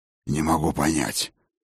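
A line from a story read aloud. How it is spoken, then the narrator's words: Suddenly hoarse voice. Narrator (Russian): проговорил он враз осипшим голосом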